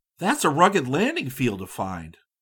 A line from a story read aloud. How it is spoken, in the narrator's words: He exclaimed